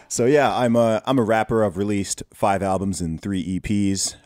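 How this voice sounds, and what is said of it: Mixed accent, not British-sounding. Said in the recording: “You've got an interesting accent from being from the UK ... this guy does not sound British”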